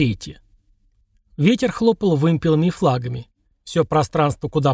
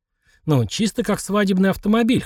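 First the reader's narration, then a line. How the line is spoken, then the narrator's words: Snorting. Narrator (Russian): хмыкнул Влад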